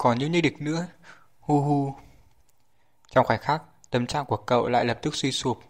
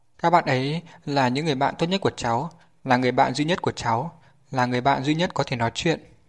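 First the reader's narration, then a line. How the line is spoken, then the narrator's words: Trembling, quiet. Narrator (Vietnamese): Miệng Chu Triều Dương khẽ run rẩy nói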